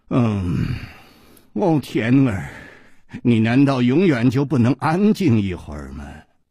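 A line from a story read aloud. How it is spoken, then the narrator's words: Low, seductive. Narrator (Chinese): 一声低沉却充满了煽动的吸引力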